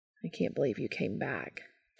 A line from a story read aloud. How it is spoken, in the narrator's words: Cass said gently